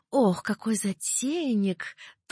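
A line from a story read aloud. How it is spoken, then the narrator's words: Languid sighing drawl. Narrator (Russian): томно протянула она, вздохнув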